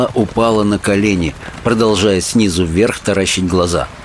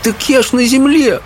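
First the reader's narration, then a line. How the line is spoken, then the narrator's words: Sobbing. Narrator (Russian): всхлипнула она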